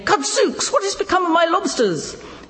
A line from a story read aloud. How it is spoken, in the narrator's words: exclaiming